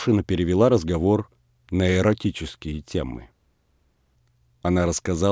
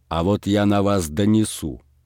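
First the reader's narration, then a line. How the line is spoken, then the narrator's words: Angry. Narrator (Russian): сердито сказал Передонов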